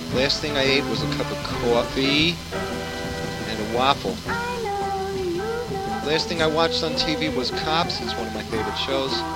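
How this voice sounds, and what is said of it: Brooklyn accent. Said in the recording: “Do I think I have an accent? ... I guess I do, because I'm from Brooklyn.”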